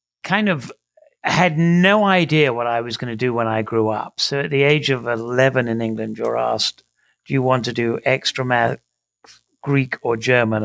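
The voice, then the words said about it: English accent. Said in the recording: “I grew up in England, as my accent will betray me”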